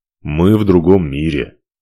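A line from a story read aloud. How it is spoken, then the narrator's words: Snorting remark. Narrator (Russian): хмыкнул он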